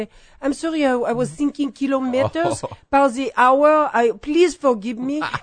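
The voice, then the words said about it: English spoken with a French accent. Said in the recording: “if you use English with a French accent ... Just you bring up the French accent.”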